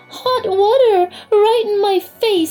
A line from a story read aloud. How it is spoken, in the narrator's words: spluttered Marie